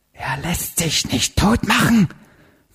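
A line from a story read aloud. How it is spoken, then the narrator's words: Tiny near-silent whisper. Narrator (German): flüsterte da ein Stimmchen fast lautlos und doch ganz nah an seinem Ohr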